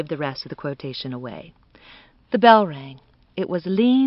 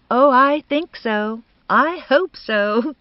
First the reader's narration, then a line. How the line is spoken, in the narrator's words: said Bertha brightly